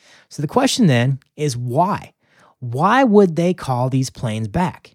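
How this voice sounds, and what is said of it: Usual voice. Nothing is said of it.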